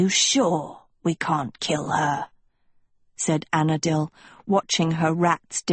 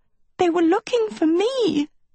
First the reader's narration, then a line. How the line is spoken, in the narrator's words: Sophie cried